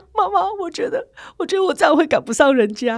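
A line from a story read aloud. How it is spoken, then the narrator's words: Crying. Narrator (Chinese): 我哭说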